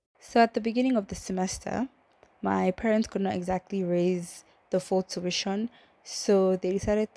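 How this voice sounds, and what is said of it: Shaky voice with a cold. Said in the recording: “how my voice is going to sound throughout this episode ... I have a cold, so my voice it's is not going to be like in the same frequency it's going to be high sometimes low sometimes deep light shaky”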